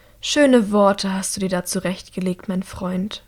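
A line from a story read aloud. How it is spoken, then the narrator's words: Quiet. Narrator (German): sagt Anneka leise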